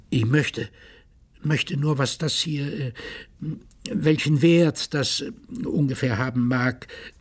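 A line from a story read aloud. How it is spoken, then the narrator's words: Stammering. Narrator (German): stotterte er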